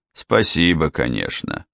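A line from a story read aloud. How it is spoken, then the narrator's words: Icy tone. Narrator (Russian): ледяным тоном произнес он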